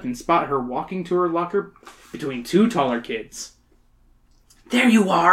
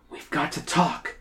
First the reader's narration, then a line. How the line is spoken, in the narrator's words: Emily whispers